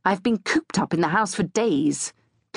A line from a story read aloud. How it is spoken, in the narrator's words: Clive said irritably